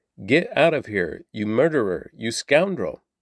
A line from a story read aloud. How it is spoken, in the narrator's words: he shouted at David